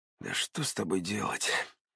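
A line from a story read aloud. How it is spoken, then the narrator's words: Hissed. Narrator (Russian): прошипел Артем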